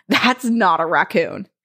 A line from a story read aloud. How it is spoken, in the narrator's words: looked confused as she said this and scoffed, stating